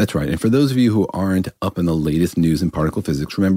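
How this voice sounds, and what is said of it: Usual voice. Nothing is said of it.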